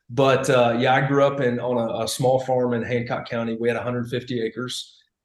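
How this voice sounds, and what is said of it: Slight Southern American accent. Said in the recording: “a lot of people say I've picked up a Southern accent”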